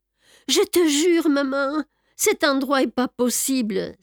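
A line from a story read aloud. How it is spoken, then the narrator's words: Exclaiming. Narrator (French): s'exclama Myriam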